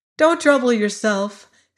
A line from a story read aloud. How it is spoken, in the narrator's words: said Ginger cheerfully